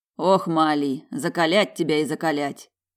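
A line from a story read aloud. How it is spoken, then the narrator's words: Grumbled from above. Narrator (Russian): пробурчал над головой куратор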